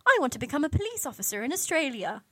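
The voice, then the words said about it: Failed attempt at Irish accent. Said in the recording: “I know that wasn't an Irish accent.”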